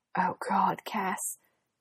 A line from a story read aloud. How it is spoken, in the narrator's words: Dean hissed